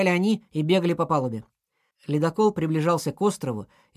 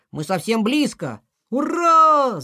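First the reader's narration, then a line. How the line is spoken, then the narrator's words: Friends shouting. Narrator (Russian): закричали друзья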